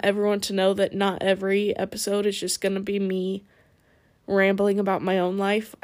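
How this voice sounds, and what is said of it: Tired, raspy voice. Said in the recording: “I'm tired. ... my voice is getting raspier”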